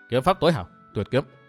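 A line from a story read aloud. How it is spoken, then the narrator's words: Muttering. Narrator (Vietnamese): Dương Viễn nói lẩm bẩm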